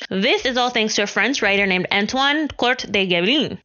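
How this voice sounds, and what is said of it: Put-on Spanish accent. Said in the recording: “Don't speak French. That was a Spanish accent.”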